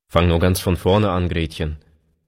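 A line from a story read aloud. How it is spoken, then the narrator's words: Plain. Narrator (German): sagte er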